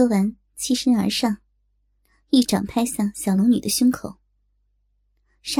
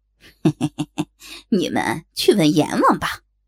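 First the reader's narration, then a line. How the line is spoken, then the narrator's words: Eerie laugh. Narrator (Chinese): 黑衣人怪笑道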